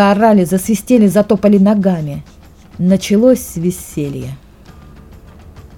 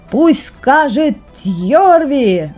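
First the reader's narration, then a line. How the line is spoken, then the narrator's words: Younger son yelling. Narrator (Russian): заорал младший сын Магнуса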